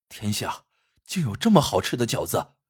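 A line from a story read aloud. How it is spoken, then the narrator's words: Admiring exclamation. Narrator (Chinese): 纷纷赞叹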